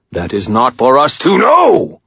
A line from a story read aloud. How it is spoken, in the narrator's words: Michael shouted